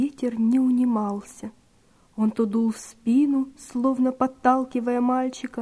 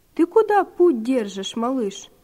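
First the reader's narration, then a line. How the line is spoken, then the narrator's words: Surprised question. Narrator (Russian): он удивленно спросил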